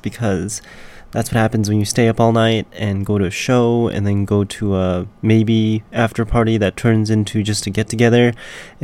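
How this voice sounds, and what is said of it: Raspy, hoarse voice. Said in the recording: “I've got my raspy voice today. It's called my radio voice”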